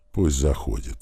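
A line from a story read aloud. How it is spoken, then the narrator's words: Tired. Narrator (Russian): устало ответил я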